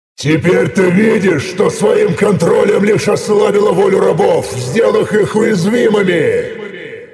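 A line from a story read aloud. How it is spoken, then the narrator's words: Cave-filling roar. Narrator (Russian): Проревел я на всю пещеру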